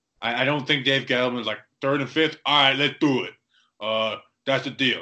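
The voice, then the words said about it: Bad put-on Boston accent. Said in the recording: “that was a bad Boston accent. ... It was horrific.”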